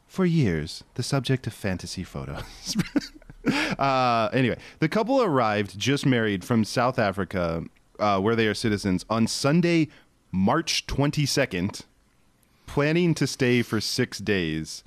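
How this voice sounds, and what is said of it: Calm public radio announcer voice. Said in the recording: “I have to use my NPR voice”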